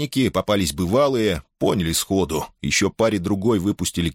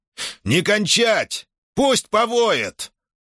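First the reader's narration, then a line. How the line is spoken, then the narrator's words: Shout. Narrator (Russian): Хар крикнул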